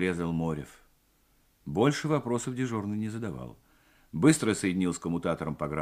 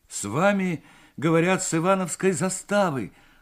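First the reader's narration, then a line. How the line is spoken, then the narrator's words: Agitated. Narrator (Russian): взволнованно произнес Морев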